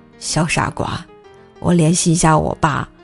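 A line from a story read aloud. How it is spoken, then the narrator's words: Soft laugh, low voice. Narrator (Chinese): 他轻轻一笑，低声道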